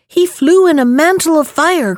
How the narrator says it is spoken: cried another

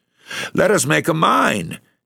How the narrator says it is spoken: exclaimed

